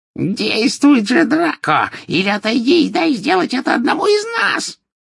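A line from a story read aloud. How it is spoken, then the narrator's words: Shrill shriek, witch. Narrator (Russian): визгливо вскрикнула колдунья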